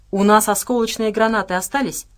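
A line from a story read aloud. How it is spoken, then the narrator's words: Plain. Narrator (Russian): спросил Дима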